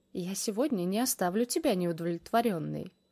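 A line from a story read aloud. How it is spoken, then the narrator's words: Smug snort. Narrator (Russian): хмыкнул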